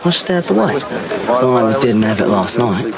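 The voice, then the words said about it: Put-on accent slipping into Australian. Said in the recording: “Now that's very Australian. Gone completely Oz there.”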